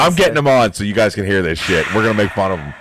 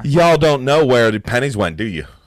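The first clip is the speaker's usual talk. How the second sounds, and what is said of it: Weak attempt at southern American accent. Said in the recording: “the southern accent is ... No, that's not it. I can't do it.”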